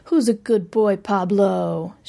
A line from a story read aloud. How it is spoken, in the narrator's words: cooed